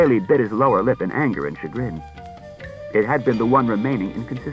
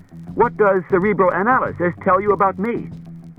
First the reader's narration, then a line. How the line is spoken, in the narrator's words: said Bailey sharply